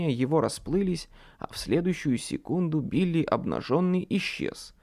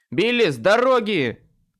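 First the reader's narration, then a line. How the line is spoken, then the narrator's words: Barking. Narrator (Russian): рявкнул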